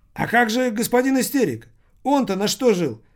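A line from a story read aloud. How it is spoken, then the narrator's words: Exclamation. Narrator (Russian): воскликнул Томмазо Кампанелло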